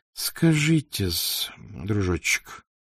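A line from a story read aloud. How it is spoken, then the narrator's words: Undertone. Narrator (Russian): молвил он вполголоса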